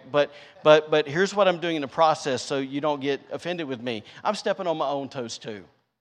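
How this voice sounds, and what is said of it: Country Southern accent. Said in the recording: “That sounded really country. You're like, it all sounds really country.”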